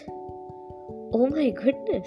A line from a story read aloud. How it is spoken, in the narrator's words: Hannah gasped